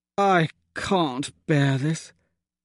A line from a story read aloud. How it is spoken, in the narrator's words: I groaned quietly